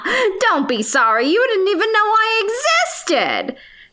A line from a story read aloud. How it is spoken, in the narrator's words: she said with a laugh